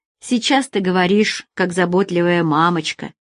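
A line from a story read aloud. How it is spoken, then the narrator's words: Snorting chuckle. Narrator (Russian): хмыкнул Алекс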